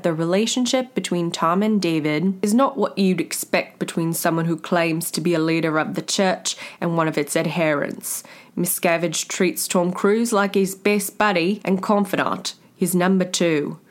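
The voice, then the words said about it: Put-on Australian accent. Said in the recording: “Mike Rinder is Australian, and I thought I'd try on the accent. It's not my best”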